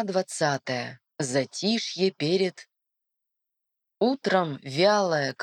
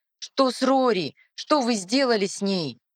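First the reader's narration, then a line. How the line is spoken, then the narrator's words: Shouted. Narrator (Russian): кричал Лис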